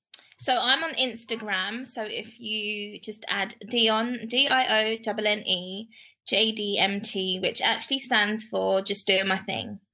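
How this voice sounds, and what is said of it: British accent, from London. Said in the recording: “I hear an accent, so I know it's not USA. It's more like across the pond.”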